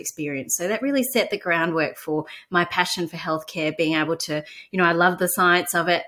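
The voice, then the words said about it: Australian accent. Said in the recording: “I could tell from your accent that you grew up in Melbourne ... Australian accent”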